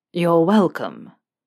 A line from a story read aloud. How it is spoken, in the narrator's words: Malfoy said, dryly